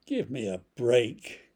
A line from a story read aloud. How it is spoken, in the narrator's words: groaned Famine